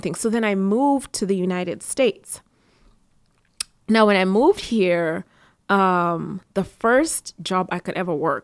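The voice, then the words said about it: Non-native English accent. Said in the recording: “even with my accent”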